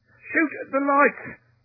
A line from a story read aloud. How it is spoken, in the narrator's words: gasped Tinker